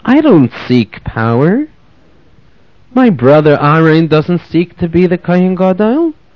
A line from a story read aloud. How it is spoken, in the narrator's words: Calmly, Moshe answered Kairach